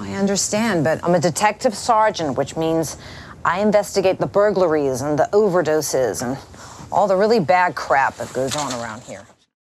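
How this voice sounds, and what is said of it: Delaware County Pennsylvania accent. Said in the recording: “a distinct regional accent ... What do you think makes this a Delaware County accent? ... something in the vowels”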